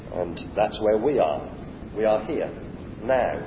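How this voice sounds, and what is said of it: Usual voice. Nothing is said of it.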